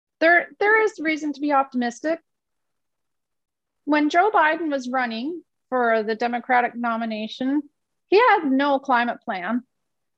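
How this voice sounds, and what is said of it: Voice giving out, strained. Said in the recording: “now I'm losing my voice.”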